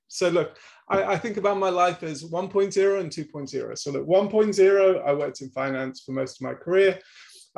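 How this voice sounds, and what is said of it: British accent. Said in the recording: “you have a British accent ... British accent”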